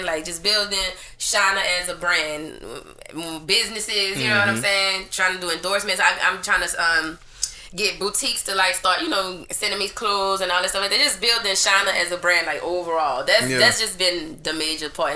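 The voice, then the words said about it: Speaks with a distinctive accent. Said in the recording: “the girl with the accent ... That voice is gonna take you extremely far.”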